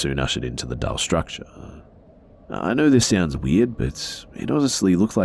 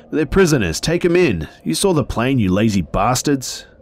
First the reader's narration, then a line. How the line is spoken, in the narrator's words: During the struggle, he called out to the guards